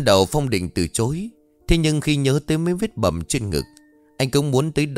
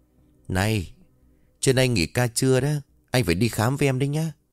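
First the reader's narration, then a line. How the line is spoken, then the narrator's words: Whisper. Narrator (Vietnamese): Yến thì thầm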